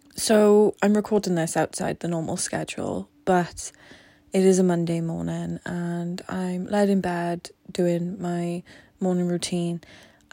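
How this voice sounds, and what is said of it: Slightly congested, sniffly voice. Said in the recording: “I have a little bit of a cold. Hopefully my voice is nicer on the use.”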